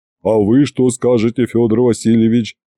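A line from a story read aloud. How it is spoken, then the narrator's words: Booming drone. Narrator (Russian): прогудел Иван Палыч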